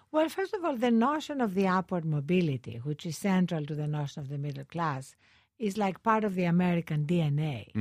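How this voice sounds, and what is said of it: Greek immigrant accent. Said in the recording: “as an immigrant to this country, you know, this accent is for real. I didn't just put it up for you... people growing up in Greece, where I grew up”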